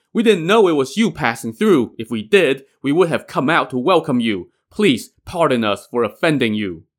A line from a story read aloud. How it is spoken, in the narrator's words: the chieftain shouted